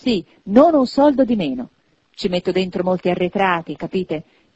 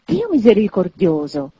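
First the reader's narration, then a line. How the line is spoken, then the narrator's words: Choked with astonishment. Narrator (Italian): esclamò il signore soffocato dallo stupore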